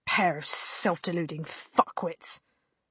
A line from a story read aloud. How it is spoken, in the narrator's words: spat